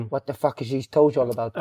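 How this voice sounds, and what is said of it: Put-on accent imitating a teammate. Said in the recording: “You're better at the accent than me.”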